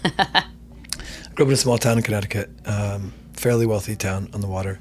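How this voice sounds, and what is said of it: Hoarse, husky low voice. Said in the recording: “lost my voice, so I don't generally sound like a musky lounge singer”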